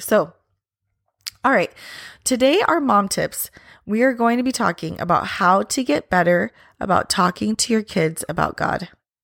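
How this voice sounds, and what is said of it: Raspy voice from illness. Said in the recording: “sorry about my voice today. I have been battling a sickness now for about a week ... you wouldn't know it from the way my voice sounds ... I've got raspiness going on”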